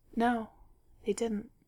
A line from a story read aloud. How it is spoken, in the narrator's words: Bilbo said sadly